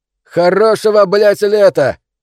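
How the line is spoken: Shouted after someone. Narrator (Russian): Ленин крикнул вслед

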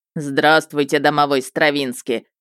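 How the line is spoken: Polite troll booming. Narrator (Russian): вежливо прогудел тролль

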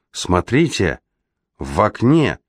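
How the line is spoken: Exclamation. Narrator (Russian): воскликнула Пустельга

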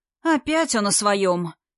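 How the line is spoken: Contemptuous snort. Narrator (Russian): презрительно хмыкнул Глеб

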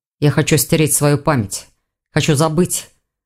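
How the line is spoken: Dragon's growl. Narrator (Russian): зарычал дракон

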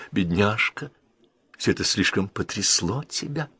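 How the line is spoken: Surprised whisper. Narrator (Russian): Леди Энн Кейтл с удивлением прошептала

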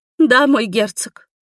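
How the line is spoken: Feigned sobbing. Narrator (Russian): всхлипнула леди, играя новую роль

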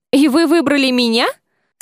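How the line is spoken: Asking, suppressing laughter. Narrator (Russian): С трудом сдерживаясь, чтобы не расхохотаться, уточнила

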